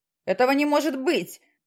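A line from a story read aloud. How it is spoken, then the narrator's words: Shout. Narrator (Russian): закричал он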